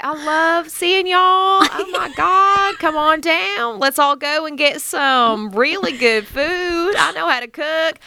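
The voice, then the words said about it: Put-on Southern belle drawl. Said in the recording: “I'm into the Southern drawl, like the Southern belle”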